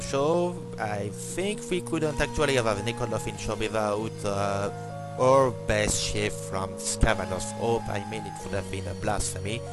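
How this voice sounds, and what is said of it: Strong non-native English accent. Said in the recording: “the bad English and the horrible accent”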